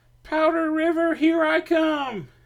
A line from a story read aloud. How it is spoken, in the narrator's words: he yelled at Hatsy